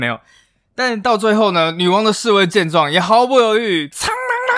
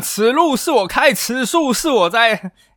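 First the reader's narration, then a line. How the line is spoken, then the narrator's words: Shouting. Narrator (Chinese): 可能还会喊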